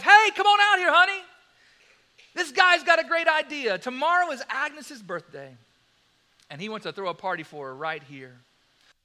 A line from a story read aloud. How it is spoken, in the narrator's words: He shouts to his wife